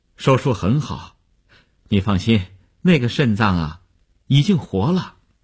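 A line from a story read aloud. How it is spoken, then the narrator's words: Relieved, smiling. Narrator (Chinese): 医生 放心地笑笑说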